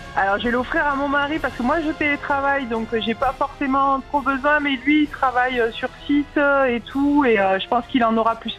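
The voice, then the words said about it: Cheerful voice with slight accent. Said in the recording (French): “on aime bien ces voix enjouées ... Il y a un petit accent derrière.”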